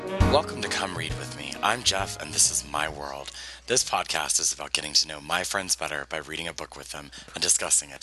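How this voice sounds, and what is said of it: Worn-out, hoarse voice. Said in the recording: “my voice is a little shot ... that's why I sound like this”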